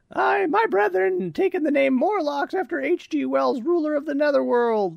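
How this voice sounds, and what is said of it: Generic female character voice. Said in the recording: “just do the generic female voice”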